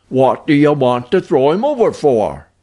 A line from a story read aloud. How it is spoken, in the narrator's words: questioned the sailor in a querulous voice